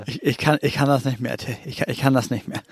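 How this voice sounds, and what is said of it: Stammering voice on verge of breakdown. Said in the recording (German): “du bist immer so gerade an der Kippe zu einem Anfall ... so ein Anfall, so wo man sagt, ich höre auf mit allem ... du bist richtig auf der Kippe gerade ... genau so klingt das gerade für mich”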